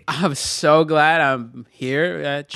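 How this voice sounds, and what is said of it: Valley Girl voice. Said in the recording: “I said good, not Valley Girl.”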